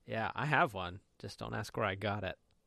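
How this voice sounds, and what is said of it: Bad put-on British accent. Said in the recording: “I was doing a bad British accent.”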